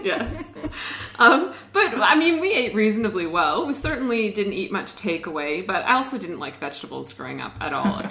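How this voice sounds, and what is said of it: Canadian accent. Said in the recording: “I grew up in a pretty normal Canadian family, which is where my accent is from”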